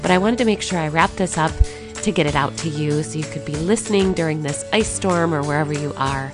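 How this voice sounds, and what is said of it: Sick, wonky voice. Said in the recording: “I have gotten an awful illness of some kind. So that's why my voice is a little bit wonky.”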